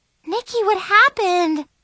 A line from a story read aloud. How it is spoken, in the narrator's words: Chloe gasped